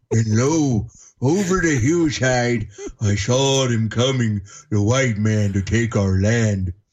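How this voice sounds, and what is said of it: Put-on stereotyped old Native American voice. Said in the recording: “The accent you were doing, the voice to me, reminded me of like the old commercials with the old Indian standing by the creek”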